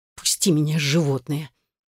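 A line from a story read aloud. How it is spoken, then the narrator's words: Furious hiss. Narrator (Russian): Прошипела еще более яростно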